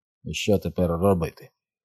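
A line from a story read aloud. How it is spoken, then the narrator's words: Mutter. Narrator (Ukrainian): він пробурмотів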